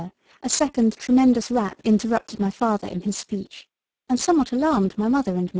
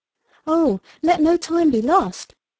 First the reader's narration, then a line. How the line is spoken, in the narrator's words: cried I